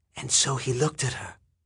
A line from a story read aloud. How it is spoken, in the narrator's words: Don whispered